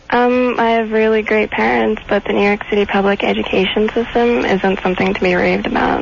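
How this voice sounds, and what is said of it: Teenage girl voice, no New York accent. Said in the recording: “does not sound like a New Yorker ... her sort of teenage accent has trumped her Brooklyn accent ... Or her Bronx accent ... she has no attitude ... She sounds like a hot teenage girl.”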